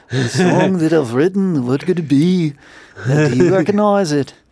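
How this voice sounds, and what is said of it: Poor imitation of another person's voice. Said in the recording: “Terrible McCartney impression ... That was pretty terrible, too.”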